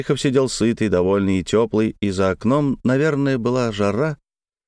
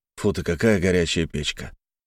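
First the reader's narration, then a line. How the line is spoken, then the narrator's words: Good-natured grumble. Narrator (Russian): Терехов ворчал добродушно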